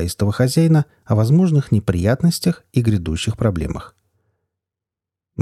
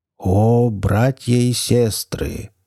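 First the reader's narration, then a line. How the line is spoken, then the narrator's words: Deep trained enchanting voice, magician. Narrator (Russian): хорошо поставленным, чарующим, глубоким голосом произнес маг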